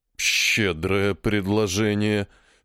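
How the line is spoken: Slow exhaled words. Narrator (Russian): Снова медленно выдохнул жрец

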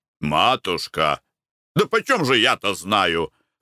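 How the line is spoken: Irritated reply. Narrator (Russian): раздраженно отвечал Николай Иванович

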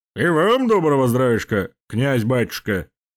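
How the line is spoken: Big man's deep bass. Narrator (Russian): пробасил здоровяк

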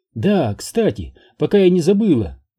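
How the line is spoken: Exclamation. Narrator (Russian): воскликнула Элизабет

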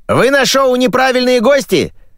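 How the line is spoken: Shouting young man. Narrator (Russian): закричал кудлатый парень

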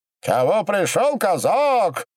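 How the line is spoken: Shouting loudly from walls. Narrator (Russian): кричал по-русски голосистый янычар со стен

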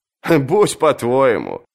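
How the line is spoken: Laughing. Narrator (Russian): засмеялся Джон

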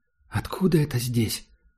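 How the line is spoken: Quiet question. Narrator (Russian): спросила Герда тихо

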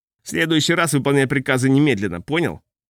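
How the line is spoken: Angry. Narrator (Russian): он зло сказал

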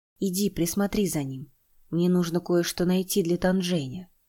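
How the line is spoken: Soft. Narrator (Russian): Чинтянь мягко произнес

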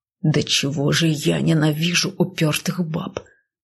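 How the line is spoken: Hissing. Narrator (Russian): Прошипел он надо мной

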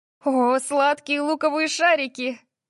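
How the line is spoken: Breathless exclamation. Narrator (Russian): выдохнула она

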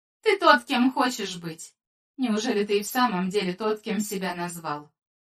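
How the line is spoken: Calm soothing telepathic message. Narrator (Russian): Ее мысленное послание проникло в его разум спокойно, как ласковая рука, ласкающая ребенка, пробудившегося от ночного кошмара

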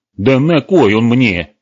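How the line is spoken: Irritated shout. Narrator (Russian): раздраженно вскричал сказочник

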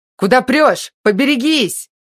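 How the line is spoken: Shouting from behind. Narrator (Russian): закричал кто-то сзади

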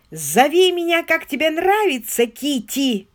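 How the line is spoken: Yelling. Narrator (Russian): заорал он

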